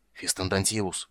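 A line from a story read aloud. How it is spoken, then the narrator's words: Hoarse, over murmur. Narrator (Russian): прохрипел другой, заглушая глухой ропот опаленных магическим светом тварей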